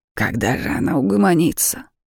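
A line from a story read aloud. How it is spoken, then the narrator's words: Grumbling. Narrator (Russian): бурчала Арманда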